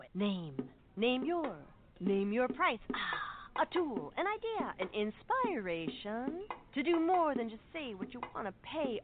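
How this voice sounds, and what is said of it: Beat poet impression. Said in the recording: “my impression of a beat poet”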